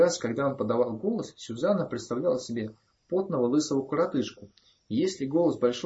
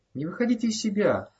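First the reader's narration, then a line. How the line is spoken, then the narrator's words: Pleading. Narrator (Russian): взмолился маленьким Блейн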